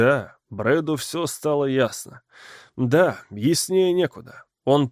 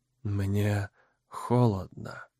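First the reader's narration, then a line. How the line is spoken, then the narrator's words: Whispered. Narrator (Russian): прошептала Сара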